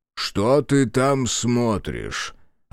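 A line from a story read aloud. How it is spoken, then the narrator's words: Irritated question. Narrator (Russian): Раздраженно поинтересовался промышленник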